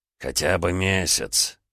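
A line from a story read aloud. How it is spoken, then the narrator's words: Heavy sigh. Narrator (Russian): тяжело вздохнул мэр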